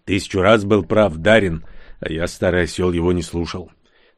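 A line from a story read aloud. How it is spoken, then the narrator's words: Sighing. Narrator (Russian): вздохнув, сказал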